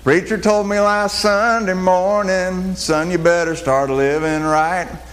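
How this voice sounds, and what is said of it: Put-on country accent, singing. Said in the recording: “I'm going to do my country accent.”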